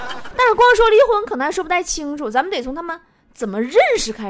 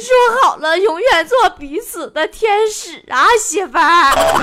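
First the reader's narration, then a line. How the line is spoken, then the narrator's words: Crying husband. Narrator (Chinese): 老公哭说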